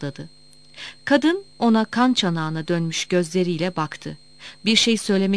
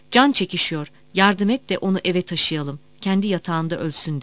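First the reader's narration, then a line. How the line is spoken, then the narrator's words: Plain. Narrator (Turkish): dedi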